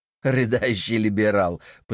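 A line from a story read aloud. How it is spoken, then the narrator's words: Mocking laugh. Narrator (Russian): посмеялся Байрон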